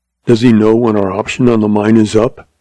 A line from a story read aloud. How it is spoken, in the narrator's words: Jim asked